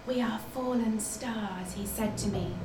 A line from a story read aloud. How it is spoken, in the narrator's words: whispered my mother, the formerly upright piano